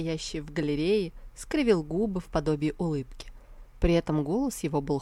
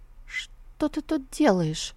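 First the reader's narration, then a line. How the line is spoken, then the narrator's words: Trembling voice. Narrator (Russian): спросила Сусу дрогнувшим голосом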